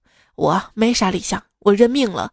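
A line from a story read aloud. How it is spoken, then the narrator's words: Sighing. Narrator (Chinese): 他叹了一口气说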